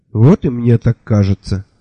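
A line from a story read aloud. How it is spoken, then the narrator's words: Sighed. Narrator (Russian): вздохнул Мелифаро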